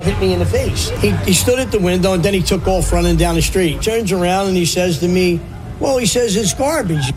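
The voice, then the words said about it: Strong regional accent. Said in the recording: “there's a fun accent redhead here”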